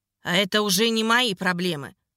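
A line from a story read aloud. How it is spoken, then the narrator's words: Slightly angry. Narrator (Russian): Немного зло сказала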